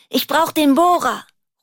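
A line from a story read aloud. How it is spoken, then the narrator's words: Call. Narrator (German): ruft sie Mari und Kurt zu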